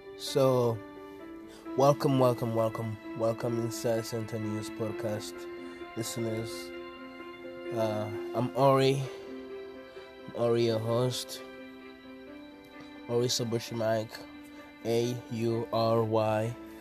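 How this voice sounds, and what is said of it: Voice affected by a cold. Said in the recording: “Apologize for my voice having some cold.”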